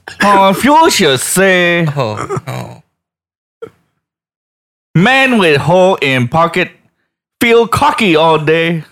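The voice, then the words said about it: Put-on stereotyped Asian accent. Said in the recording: “I'm going to put on my racist Asian accent.”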